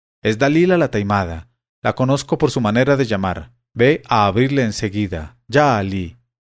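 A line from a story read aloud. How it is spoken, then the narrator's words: Exclaiming. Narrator (Spanish): exclamó Hassán la Peste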